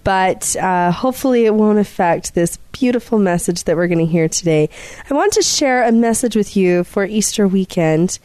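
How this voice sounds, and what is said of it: Slightly congested voice. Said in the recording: “apologize about my voice. I have a little bit of a cold,”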